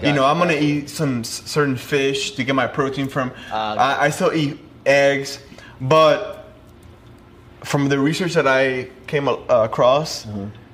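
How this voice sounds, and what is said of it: Thick accent. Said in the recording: “My thick-ass accent”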